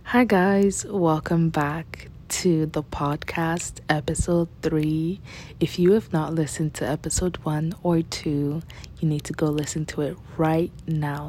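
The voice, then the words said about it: Quiet, soft voice. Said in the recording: “my voice is quiet and soft, it's because I'm recording in the middle of the night”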